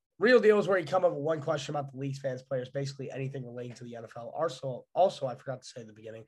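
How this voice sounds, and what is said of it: Voice sounds bad, sick. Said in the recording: “I'm sorry if my voice sounds bad. I've been like sick as hell.”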